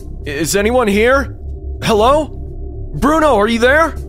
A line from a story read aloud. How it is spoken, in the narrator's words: I yelled out, hoping, begging for this nightmare to just end